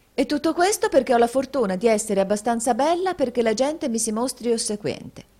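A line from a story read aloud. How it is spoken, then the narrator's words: Exclaimed. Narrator (Italian): esclamò la signorina Price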